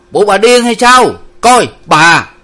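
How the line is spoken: Hasty shout. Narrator (Vietnamese): Ông Năm vội hét lên

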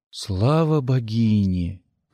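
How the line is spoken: Whisper. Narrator (Russian): прошептал

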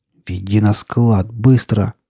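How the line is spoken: Hiss. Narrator (Russian): прошипел

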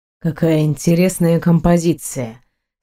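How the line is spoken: Confident but hoarse. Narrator (Russian): Самоуверенно бросил он, но голос вышел хриплым

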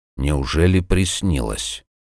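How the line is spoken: Thoughtful mutter. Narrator (Russian): задумчиво пробормотал силач

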